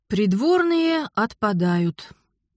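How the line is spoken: Dejected sigh. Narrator (Russian): уныло вздохнула я

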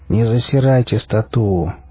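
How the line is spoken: Weary drawl. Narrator (Russian): устало протянул адмирал

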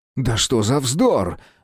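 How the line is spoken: Irritated exclamation. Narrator (Russian): раздраженно воскликнул он

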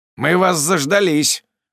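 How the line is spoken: Spat out angrily. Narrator (Russian): выплевываю зло

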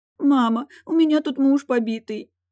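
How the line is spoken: Sobbing. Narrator (Russian): Сквозь рыдания делилась с родительницей

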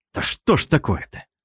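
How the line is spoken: Irritated. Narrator (Russian): раздраженно произнес я

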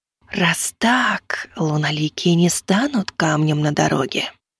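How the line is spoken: Hissing whisper. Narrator (Russian): прошипел и шепот

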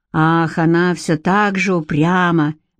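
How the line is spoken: Gloomy remark. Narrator (Russian): мрачно заметил Ансельм

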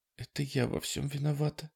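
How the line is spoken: Guilt-stricken whisper. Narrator (Russian): прошептала Дана, раздавленная чувством вины

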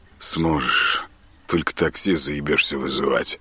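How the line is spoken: Gloomy joking. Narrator (Russian): мрачно отшутился Артем

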